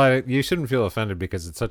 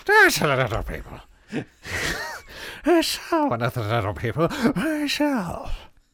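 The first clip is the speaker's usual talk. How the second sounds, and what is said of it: Bad stereotypical Irish accent. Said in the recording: “such a terrible accent. It's such a terrible imitation of a stereotypical Irish accent.”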